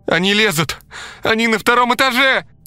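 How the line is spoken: Scream. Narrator (Russian): закричала Лена

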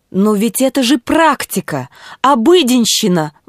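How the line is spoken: Exclamation, doctor. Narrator (Russian): воскликнул доктор Гаммерфильд

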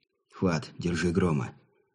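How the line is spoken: Breathless exhale. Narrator (Russian): скорее выдохнул, чем произнес Сергей

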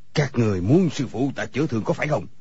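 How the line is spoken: Shout. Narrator (Vietnamese): người câu cá liền quát lên

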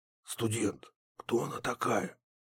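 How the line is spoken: Quiet, almost whispering. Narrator (Russian): Говорил он тихо, почти шепотом

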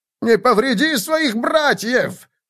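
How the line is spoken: Terrified shout. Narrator (Russian): в ужасе кричал Лихтман

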